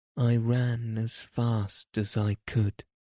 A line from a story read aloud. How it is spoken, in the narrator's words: he said, … yawning